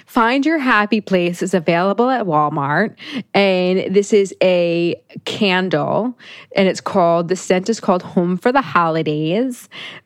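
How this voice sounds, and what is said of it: Upper Midwest accent. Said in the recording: “you just got like an upper Midwest accent.”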